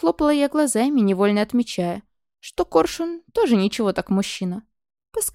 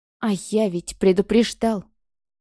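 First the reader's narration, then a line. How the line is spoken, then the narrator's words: Angry irritated through teeth. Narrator (Russian): Процедил он не то злобно, не то раздраженно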